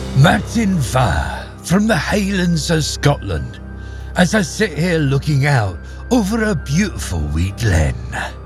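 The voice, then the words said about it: Poor put-on Scottish accent. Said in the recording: “that was an awful Scottish accent ... rubbish attempts”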